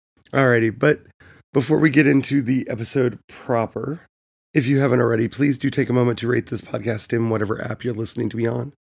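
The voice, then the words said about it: Poppy, crackly voice. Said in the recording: “I am sorry about my voice... hoping my voice would not be as poppy crackly”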